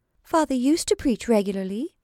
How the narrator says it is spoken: said the girl eagerly

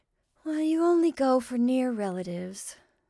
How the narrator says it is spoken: she sighed

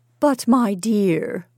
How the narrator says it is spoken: my wife said gravely

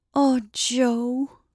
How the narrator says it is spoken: whispered brokenly

